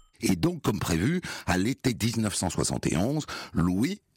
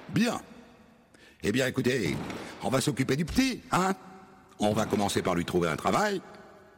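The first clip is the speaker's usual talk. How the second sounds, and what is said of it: Parisian titi working-class accent. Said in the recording (French): “Il a un accent de titi parisien.”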